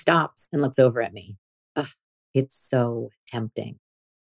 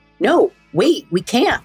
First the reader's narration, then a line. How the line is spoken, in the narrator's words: I gasp